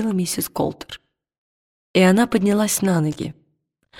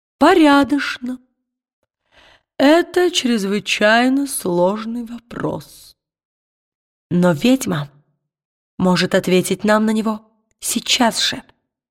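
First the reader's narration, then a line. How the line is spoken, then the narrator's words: Tired. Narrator (Russian): Он устало поднял брови и сказал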